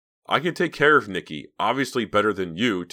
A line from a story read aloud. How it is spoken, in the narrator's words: Terry shouted, losing his temper